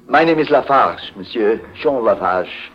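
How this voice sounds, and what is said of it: French accent. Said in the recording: “He's got a French accent”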